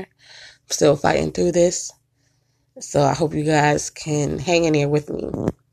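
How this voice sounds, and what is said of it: Rough, sick-sounding voice. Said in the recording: “please excuse my voice. I'm still a bit under the weather.”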